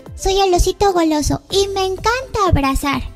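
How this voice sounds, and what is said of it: Little girl's voice for a teddy bear. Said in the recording (Spanish): “hacer la voz de niña ... voz del de osito”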